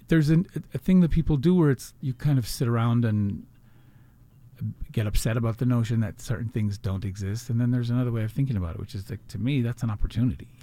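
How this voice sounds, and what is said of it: Non-Los Angeles accent. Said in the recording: “you are not necessarily from LA, given your accent.”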